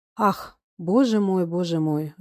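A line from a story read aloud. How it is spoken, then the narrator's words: Excited sigh. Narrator (Russian): вздохнул возбужденный Василий Иванович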